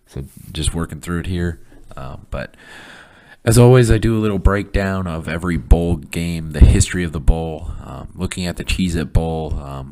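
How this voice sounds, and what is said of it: Rough, hoarse voice. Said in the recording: “I lost my voice a little bit getting over the flu ... my voice is still a little rough.”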